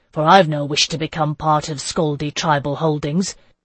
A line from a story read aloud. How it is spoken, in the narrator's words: someone else said sharply